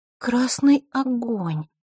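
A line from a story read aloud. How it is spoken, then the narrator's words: Puzzled, drawn out. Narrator (Russian): озадаченно протянула Диана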